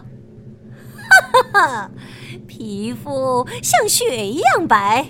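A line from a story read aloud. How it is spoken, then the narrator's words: Sinister laugh. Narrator (Chinese): 王后狞笑说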